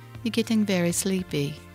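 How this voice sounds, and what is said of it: Put-on British accent, soft sleepy tone. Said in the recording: “Do you like my British accent? ... talk to you in soft, relaxing tones”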